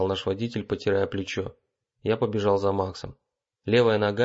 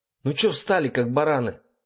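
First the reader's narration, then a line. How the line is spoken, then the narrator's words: Yelled. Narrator (Russian): заорал Макс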